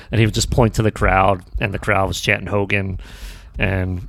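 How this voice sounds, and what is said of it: Usual voice. Nothing is said of it.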